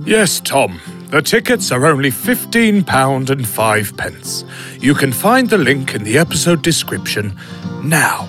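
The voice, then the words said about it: Jolly Santa Claus voice. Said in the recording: “in your best Santa voice”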